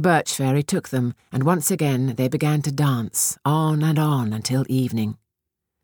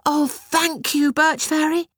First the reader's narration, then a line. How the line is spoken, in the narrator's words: Petushka cried